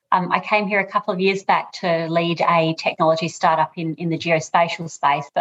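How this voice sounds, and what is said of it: Australian accent. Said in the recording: “I'm obviously Australian, as you'll hear from my voice”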